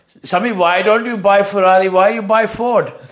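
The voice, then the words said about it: Put-on Indian accent. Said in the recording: “My mum phoned me up from India, and I'm going to mock her accent”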